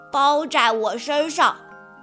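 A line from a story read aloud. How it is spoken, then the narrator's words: Loud answer. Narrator (Chinese): 阿奇大声回答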